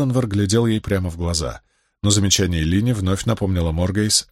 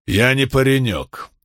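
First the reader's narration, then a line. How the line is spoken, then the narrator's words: Sharp retort. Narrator (Russian): резко отозвался тот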